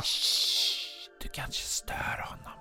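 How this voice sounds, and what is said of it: Hushed, muffled voice. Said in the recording (Swedish): “med dämpad röst”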